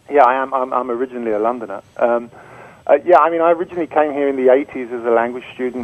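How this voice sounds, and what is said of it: British accent. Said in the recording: “I hear your accent. It sounds, I'm going to guess, British.”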